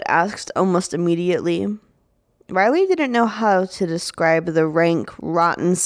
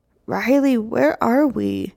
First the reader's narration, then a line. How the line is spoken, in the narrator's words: whimpered, for comfort